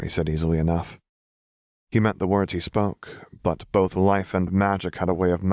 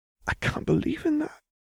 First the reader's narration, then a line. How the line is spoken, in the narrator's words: she whispered